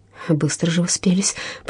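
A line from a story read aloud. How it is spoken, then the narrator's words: Indignant mutter. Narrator (Russian): пробормотала миссис Луна с негодованием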